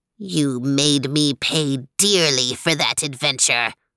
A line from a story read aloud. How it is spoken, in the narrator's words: hissed Meow Yarty